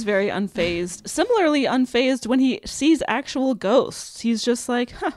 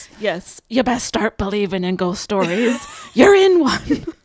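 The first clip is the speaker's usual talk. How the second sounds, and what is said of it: Put-on accent. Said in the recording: “could you do it with the accent, please?”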